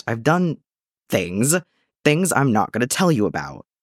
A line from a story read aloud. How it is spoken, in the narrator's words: Eddie sputtered